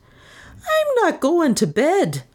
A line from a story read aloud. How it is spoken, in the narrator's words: she wailed